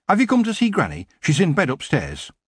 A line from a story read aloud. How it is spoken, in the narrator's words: Sid said urgently